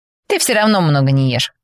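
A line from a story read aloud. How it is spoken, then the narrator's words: Chuckling. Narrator (Russian): хохотнул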